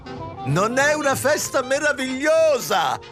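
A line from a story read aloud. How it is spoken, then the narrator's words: Imposing woman shouting. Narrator (Italian): gridò l'imponente consorte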